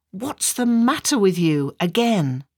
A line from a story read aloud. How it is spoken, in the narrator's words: asks angrily